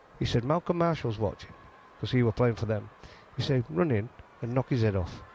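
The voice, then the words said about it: Yorkshire English accent. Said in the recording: “I'm saying it in a Yorkshire accent”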